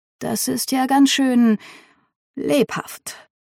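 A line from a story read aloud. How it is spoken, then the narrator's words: Murmured. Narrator (German): meinen Vater hinter mir murmeln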